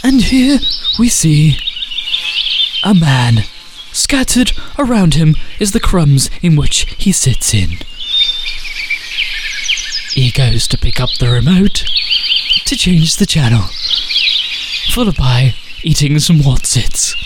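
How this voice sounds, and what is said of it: Nature documentary narrator voice. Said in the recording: “to do the David Attenborough voice”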